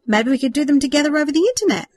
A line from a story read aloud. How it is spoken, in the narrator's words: Thomas said eagerly